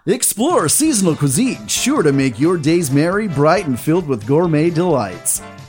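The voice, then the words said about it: Game show announcer voice. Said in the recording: “in my best game show announcer voice”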